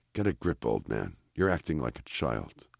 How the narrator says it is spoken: he whispers to himself

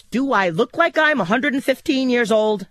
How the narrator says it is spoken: I snapped

